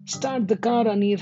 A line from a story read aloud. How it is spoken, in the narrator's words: shouted